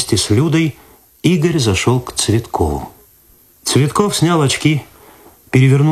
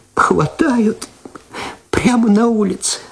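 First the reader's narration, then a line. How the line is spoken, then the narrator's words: Tearful. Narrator (Russian): сквозь слезы сказала она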